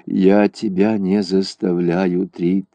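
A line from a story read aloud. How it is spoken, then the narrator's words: Sad. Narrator (Russian): грустно сказал Ун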